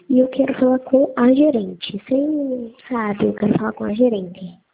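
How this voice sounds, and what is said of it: Childlike voice. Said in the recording (Portuguese): “Com voz de criança?”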